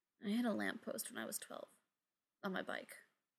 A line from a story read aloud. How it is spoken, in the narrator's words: Ryan mumbled